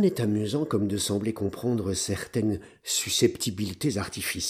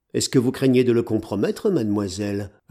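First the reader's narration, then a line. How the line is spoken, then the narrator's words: Stern. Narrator (French): ajoutai-je d'un ton sévère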